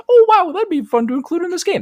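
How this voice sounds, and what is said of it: Mock imitation of own voice. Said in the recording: “That's my impression of myself.”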